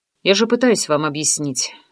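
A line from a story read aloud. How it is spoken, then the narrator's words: Calm doctor. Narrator (Russian): спокойно ответил доктор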